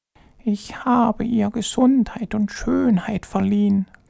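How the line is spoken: Whispered. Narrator (German): flüsterte die erste Stimme

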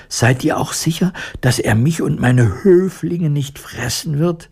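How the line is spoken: Fearful question. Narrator (German): Die Mäusekönigin fragte ängstlich

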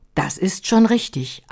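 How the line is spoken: Plain. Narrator (German): antwortete Roda

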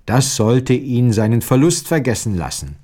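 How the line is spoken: Plain. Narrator (German): sagte sie

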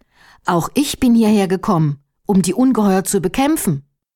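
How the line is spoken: Calling out. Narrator (German): rief Erhard

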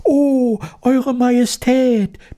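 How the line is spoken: Squeaky overlapping voices. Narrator (German): piepsten durcheinander

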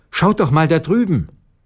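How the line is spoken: Sudden call. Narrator (German): rief Maruscha

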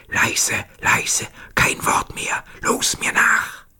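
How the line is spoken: Whispering. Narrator (German): flüsterte seinen Kameraden zu

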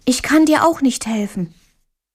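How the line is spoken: White mouse calling. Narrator (German): rief die weiße Maus

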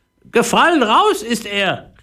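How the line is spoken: Call from above. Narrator (German): rief die Papageimutter zu Philipp herunter

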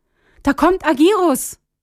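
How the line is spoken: Loud call. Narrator (German): rief laut

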